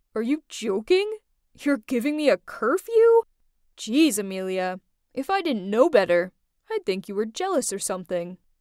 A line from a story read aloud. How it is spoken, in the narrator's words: He laughed and said